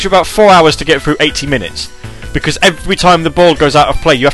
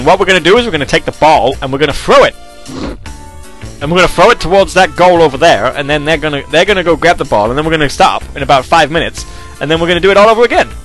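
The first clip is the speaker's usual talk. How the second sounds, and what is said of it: Exaggerated American accent. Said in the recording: “you're offending the Americans with that preposterous accent”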